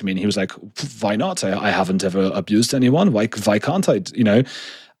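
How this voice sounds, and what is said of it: Imitated foreign man's accent. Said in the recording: “it's a very good accent, by the way ... that just was how his accent sounded”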